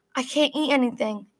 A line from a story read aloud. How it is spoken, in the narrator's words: Bennett mutters